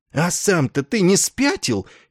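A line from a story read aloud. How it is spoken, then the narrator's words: Astonished exclamation. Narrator (Russian): изумленно воскликнул Добз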